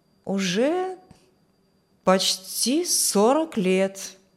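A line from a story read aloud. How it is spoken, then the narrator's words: Thoughtful. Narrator (Russian): Мистер Хортон задумчиво сказал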